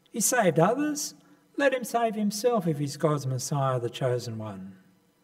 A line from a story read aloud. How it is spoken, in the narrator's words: the soldiers mocking